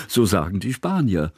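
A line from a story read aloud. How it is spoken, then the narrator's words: Laughing. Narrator (German): lachte Kusmin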